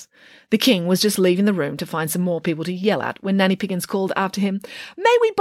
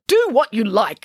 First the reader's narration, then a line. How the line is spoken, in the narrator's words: snapped the King